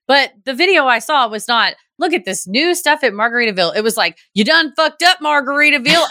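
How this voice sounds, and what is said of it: Southern Georgia accent. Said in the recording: “That's not into Georgia accent. That's just how the accent I do, because that's how me and my kinfolk sound.”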